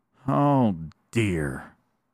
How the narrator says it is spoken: sighed the little bear cub

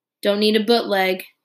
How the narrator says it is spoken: he said sullenly

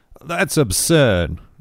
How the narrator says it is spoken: exclaimed Craig, his annoyance at the whole meeting beginning to show through

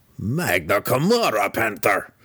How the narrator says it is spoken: the deep gnome growled

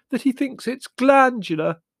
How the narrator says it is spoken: Margot confided to us tearfully

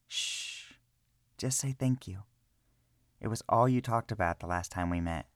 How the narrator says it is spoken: Arena softly spoke

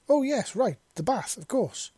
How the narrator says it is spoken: Visa exclaimed as the reality of why they were actually in the room together slapped her across the face

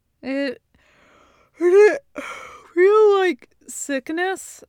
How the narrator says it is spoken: He asks, around one last yawn

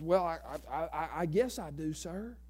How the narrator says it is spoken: taken back, stammered around and stumbled over his words, says

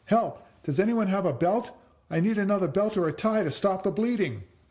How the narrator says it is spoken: shouting

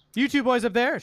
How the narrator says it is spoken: she shouted

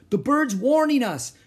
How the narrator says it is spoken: shouted Pinky

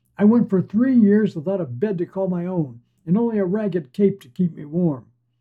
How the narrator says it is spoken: Another shouts

